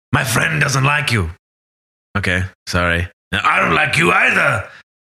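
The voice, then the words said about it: Imitates a film character's voice. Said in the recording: “The impersonation was bang on”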